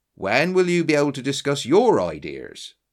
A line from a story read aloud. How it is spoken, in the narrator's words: he asked